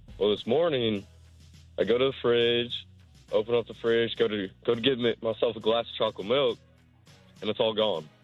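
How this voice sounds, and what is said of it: Deep, adult-sounding voice. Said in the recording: “you sound like a man. ... That's a deep”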